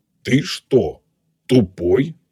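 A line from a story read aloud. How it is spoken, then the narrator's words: Menacing question. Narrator (Russian): Грозно спросил переводчик-телепат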